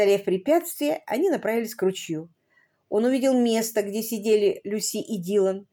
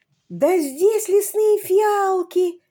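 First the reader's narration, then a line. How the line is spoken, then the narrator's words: Exclamation. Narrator (Russian): воскликнул Алисон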